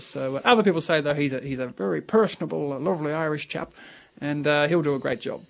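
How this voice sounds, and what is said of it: Put-on Irish accent. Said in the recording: “that's a very fine Irish accent I noticed there ... It's not bad, was it?”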